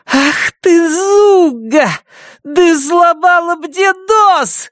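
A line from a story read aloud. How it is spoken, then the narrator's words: Shrill squeal. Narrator (Russian): взвизгнула Бетси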